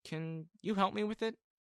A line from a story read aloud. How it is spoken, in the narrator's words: I replied nervously